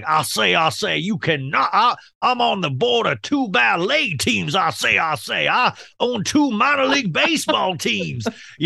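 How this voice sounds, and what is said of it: Foghorn Leghorn Southern drawl. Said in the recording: “I do a foghorn leghorn voice ... that Southern”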